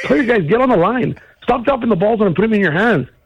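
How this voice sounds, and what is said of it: Wisconsin accent. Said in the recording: “Wisconsin accent”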